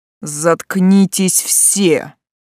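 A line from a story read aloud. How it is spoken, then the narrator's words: Roar. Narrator (Russian): взревел Байлард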